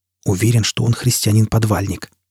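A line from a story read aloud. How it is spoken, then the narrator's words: Quiet remark. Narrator (Russian): тихо заметил Даггенхем Янг Йовелу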